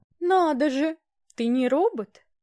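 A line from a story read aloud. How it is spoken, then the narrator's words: Triumphant drawl. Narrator (Russian): протянула она с торжествующей интонацией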